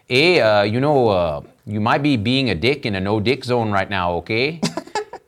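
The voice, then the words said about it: Imitated Canadian Mountie accent. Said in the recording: “I once had a Canadian mounted police officer tell me ... I don't know what kind of accent that was, but that's how he talked”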